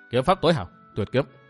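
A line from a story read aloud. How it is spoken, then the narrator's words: Muttering. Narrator (Vietnamese): Dương Viễn nói lẩm bẩm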